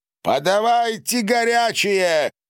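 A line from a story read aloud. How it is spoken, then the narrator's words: Shout. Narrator (Russian): крикнул граф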